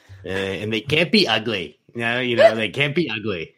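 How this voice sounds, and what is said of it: Imitates another person's voice. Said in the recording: “I love your impression. ... doing the Trump impression”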